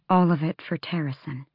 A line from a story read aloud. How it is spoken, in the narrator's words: she said quietly